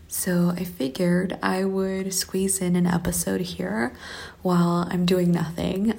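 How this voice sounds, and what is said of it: Whispering. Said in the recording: “if it sounds like I'm whispering, I am”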